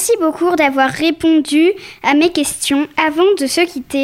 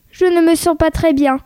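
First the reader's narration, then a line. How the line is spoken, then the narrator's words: Plain. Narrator (French): dit Violette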